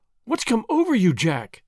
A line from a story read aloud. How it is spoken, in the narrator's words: she cried